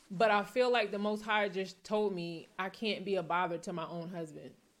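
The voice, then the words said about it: Emotional, close to tears. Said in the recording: “I'm getting emotional. I'm about to tear up right now.”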